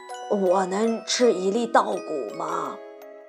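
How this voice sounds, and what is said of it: Quiet, hesitant whisper. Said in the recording (Chinese): “小声的试探”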